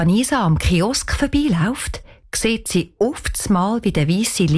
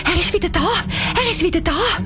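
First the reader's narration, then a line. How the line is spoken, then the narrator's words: Excited. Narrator (German): Anissa sagt aufgeregt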